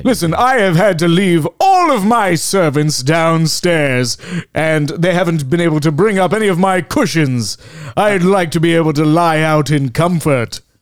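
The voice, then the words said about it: Loud, projecting character voice. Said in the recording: “keep it down ... This is about as quiet as my voice is ever like to get ... you have to project”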